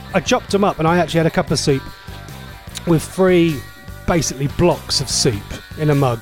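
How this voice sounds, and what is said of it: Voice going hoarse. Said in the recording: “Maybe I'm losing my voice.”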